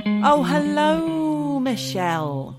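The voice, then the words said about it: Scary, spooky voice. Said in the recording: “That's my scary, spooky voice.”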